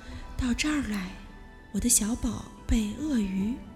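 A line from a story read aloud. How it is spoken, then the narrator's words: Soft whisper. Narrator (Chinese): 就像小草在悄悄说话的声音，轻声地说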